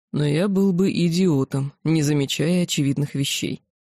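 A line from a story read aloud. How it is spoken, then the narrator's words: Heavy sigh, then speaking. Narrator (Russian): Оборотень тяжело вздохнул, глядя на меня, и произнес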